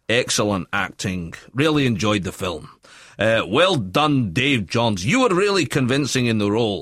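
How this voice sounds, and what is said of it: Put-on Glasgow accent. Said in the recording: “Can you do it in the accent that the person's... Where they're from? ... she's from Glasgow, actually.”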